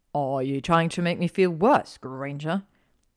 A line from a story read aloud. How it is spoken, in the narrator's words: He grumbled into her hat